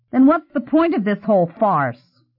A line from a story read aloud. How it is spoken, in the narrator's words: he said angrily